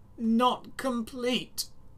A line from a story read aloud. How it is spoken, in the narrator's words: whined